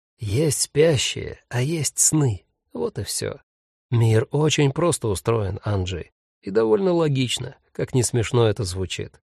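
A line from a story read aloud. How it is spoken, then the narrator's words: Dropping to whisper. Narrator (Russian): добавил, перейдя почему-то на шепот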